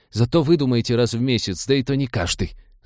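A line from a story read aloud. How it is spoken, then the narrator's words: Ringing falsetto exhale. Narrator (Russian): звенящим фальцетом выдохнул он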